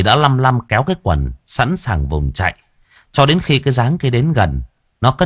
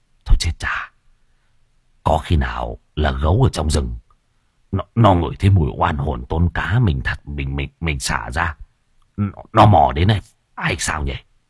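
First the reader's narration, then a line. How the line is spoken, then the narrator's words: Muttering. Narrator (Vietnamese): thầy lẩm bẩm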